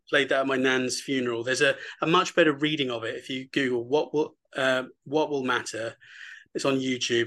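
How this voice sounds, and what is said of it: Hoarse, fading voice. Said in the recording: “who's losing my voice.”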